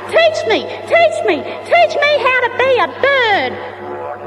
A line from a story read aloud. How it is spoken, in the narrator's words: the little flying fox, he kept on screaming out